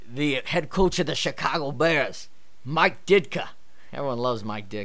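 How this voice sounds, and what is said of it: Imitates another person's voice. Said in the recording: “my really bad impersonation”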